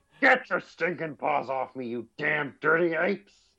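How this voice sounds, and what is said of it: Imitates another person's voice. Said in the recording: “That's the worst impression ever.”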